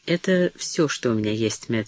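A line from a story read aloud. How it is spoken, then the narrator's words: Calm. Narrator (Russian): сказала спокойно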